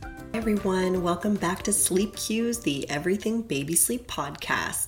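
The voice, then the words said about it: Voice sounds a bit off, unwell. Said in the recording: “Please excuse my voice. ... I'm a little bit off today ... I just sound a little bit off”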